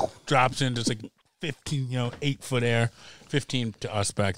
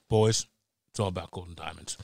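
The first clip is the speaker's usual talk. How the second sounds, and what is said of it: Deadpan delivery. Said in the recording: “deadpan.”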